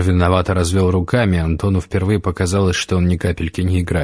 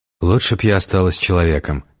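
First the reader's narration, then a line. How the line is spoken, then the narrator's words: Whisper. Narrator (Russian): прошептала Светлана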